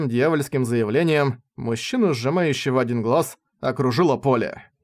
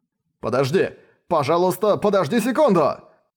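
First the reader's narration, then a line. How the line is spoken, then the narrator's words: Shouting into phone. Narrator (Russian): Мужчина, глава филиала Восточной Японии, схватил телефон и закричал в него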